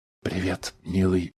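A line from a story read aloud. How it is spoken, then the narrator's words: Whisper from behind. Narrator (Russian): шепнула она из-за его плеча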